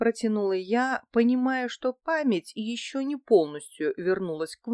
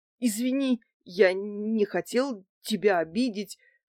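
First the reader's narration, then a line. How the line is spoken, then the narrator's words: Stuttering, frightened. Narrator (Russian): заикаясь, проговорил Василий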